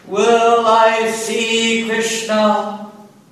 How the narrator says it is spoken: Mad in ecstatic love, the Lord roared and cried out

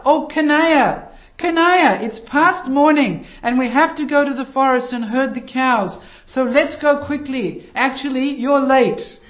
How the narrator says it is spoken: the gopas would shout

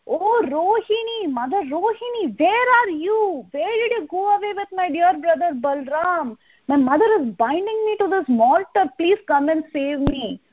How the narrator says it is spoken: he shouted

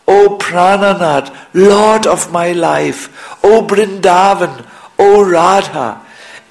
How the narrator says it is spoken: beating his chest with his fists, he called out

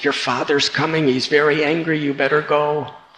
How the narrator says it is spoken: called out, said

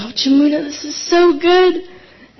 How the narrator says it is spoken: I remember exclaiming

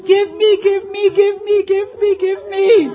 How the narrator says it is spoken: full of anxiety, Krishna fell on the ground and kicked his legs and cried loudly

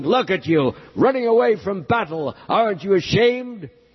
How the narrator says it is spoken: roaring thunderously and yelling

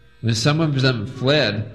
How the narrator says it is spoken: the Lord called after them angrily

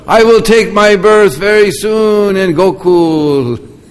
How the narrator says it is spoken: one boy who was hidden in the bushes, he called out

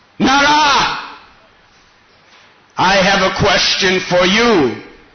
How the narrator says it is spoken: The Lord roared

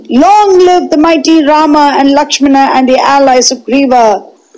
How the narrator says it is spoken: Laughed uproariously

